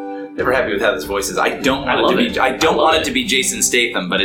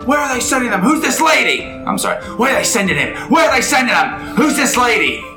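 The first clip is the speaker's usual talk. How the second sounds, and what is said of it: Put-on gruff British-Australian accent. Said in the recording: “It is Jason Statham... I'm not happy with this accent, but I like it. It's too Australian almost... A little more British”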